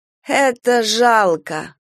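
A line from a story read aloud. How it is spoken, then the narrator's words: Nasal repetition. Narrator (Russian): повторила гнусавя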